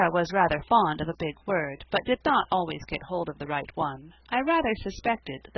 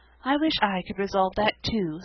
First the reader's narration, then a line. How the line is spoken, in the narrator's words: sighed Sarah Ray